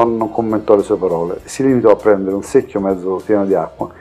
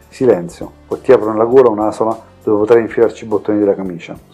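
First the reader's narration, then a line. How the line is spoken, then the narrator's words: Menacing whisper. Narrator (Italian): sussurrò all'orecchio del malcapitato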